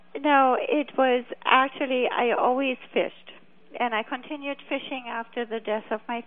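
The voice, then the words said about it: Non-native English accent. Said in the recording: “you got to excuse me for my accent. One thing I could never get quite rid of with the different languages.”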